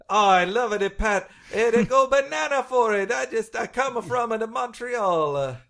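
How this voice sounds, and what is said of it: Put-on Quebec French accent. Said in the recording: “that's not a good Pat Patterson ... that's a great, great Quebec accent”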